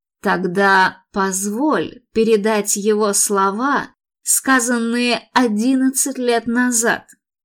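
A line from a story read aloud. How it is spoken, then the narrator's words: Creaky voice. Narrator (Russian): проскрипел Филипп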